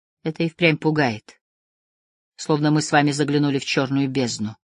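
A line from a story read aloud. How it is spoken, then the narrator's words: Quiet. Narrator (Russian): тихо сказал я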